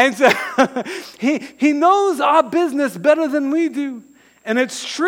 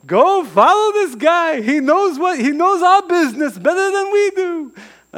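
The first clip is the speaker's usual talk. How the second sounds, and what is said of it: Put-on Jewish accent. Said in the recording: “That's my little Jewish accent”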